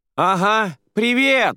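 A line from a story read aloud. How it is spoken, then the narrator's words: Joyful shout. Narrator (Russian): радостно прокричала Радия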